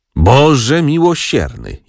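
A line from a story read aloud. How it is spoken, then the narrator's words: Groaning aunt. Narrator (Polish): jęknęła ciotka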